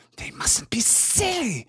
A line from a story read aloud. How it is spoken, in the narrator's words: he hissed